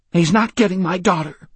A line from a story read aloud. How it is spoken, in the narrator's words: she said angrily through the tears